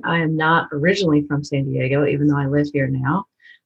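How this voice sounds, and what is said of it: Tennessee Southern US accent. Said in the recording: “You're probably going to hear it in my accent ... I did grow up in Tennessee”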